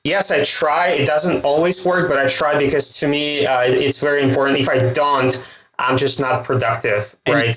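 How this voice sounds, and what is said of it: Russian accent. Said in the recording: “It's my Russian accent.”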